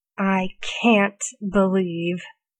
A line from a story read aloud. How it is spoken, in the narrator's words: Arthur grits out